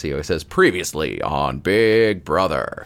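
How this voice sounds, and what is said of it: Imitates a TV announcer voice. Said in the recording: “the Big Brother guy voice ... That's a really good impression”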